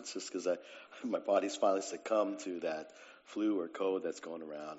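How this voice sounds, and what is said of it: Slightly hoarse voice. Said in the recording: “pardon my voice this morning, it's a little hoarse.”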